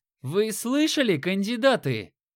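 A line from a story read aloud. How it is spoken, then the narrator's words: Shouting. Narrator (Russian): Заорал Рыжий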